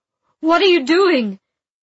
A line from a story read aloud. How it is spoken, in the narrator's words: Arcas shouted